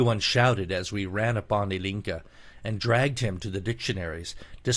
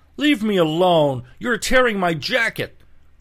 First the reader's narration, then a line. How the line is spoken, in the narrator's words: cried the unhappy victim